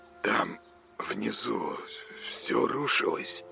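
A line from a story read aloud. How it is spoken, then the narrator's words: Mumbling. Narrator (Russian): забормотал Коля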